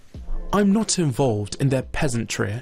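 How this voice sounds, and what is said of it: Put-on posh accent. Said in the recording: “in the most posh accent, can you read this in your posh accent?”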